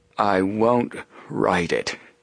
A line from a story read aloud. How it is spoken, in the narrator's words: Fenton Hardy replied in a weak but clear voice